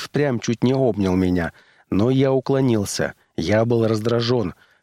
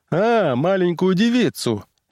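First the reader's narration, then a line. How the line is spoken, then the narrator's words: Cheerful reply. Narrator (Russian): весело откликнулся он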